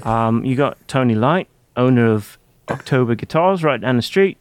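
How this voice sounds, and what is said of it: Imitates another person's voice. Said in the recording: “I'm kind of forgetting the accent here.”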